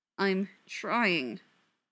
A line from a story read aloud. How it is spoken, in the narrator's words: Neil said, through gritted teeth